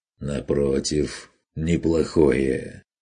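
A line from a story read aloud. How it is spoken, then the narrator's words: Mocking objection. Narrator (Russian): возразил Конрад насмешливо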